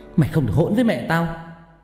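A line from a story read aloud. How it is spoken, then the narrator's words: Angry shout. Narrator (Vietnamese): Ngọc quát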